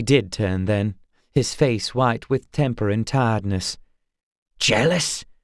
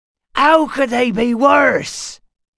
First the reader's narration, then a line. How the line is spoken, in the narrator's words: he shouted